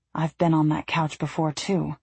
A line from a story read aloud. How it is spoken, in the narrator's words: whispered